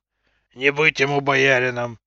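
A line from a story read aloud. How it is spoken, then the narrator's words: Deep grumbling mutter. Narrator (Russian): басовито пробурчал он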